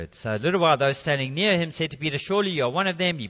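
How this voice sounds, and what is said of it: Speaks with a regional accent. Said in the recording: “it's the accent, mate”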